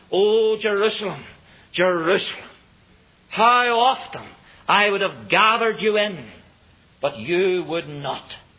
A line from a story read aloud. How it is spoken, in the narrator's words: he cried